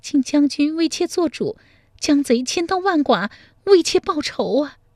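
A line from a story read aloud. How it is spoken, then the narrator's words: Crying woman. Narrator (Chinese): 一个妇人，哭着对韩令坤说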